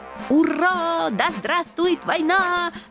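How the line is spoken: Joyful yelling group. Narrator (Russian): радостно завопили генералы

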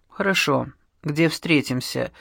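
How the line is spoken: Calm reply. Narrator (Russian): спокойно ответил Контрерос, будто и не ожидал иного

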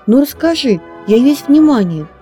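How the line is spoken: Impatient exclamation. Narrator (Russian): с нетерпением воскликнул подснежник

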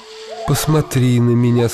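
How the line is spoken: Laughing. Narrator (Russian): сказала, смеясь волшебница

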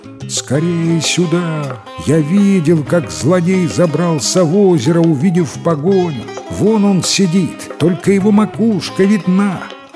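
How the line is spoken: Loud shout. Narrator (Russian): громко закричал

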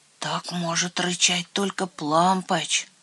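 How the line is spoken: Frightened whisper. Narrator (Russian): Трусишка Лойбнер испуганно прошептал

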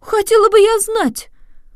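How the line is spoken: Indignant exclamation. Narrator (Russian): воскликнула сеньора Сандрелли в совершеннейшем негодовании

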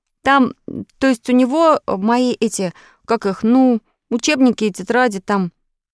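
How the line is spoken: Stammering. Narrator (Russian): И Петя, запинаясь на каждом слове, промолвил

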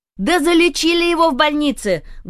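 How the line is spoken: Loud old woman. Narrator (Russian): громко повторила бабуся сверху

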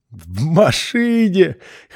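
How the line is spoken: Little brother laughing, coughing. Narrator (Russian): хохотал и кашлял братик

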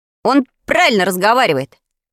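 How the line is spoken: Creaky voice. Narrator (Russian): проскрипел

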